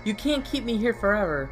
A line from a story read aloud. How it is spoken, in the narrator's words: I shouted